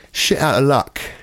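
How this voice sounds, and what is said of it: Put-on English accent. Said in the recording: “You're doing a different kind of English accent than I do.”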